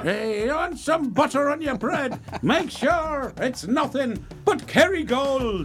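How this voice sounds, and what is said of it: Put-on Irish accent. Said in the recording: “Talking with an Irish accent.”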